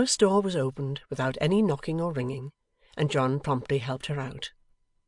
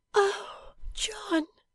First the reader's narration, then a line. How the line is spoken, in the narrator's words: said Bella faintly